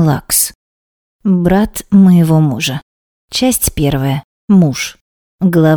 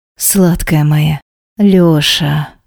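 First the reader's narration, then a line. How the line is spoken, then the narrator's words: Pleasured moan. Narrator (Russian): простонала плавясь от незатейливой ласки пальцами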